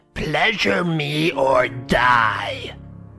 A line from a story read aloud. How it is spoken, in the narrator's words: Her face was wrinkled into an evil snarl and she screeched out